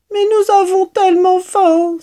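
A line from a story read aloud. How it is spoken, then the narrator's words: Fox cubs crying out. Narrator (French): s'écrièrent les renardeaux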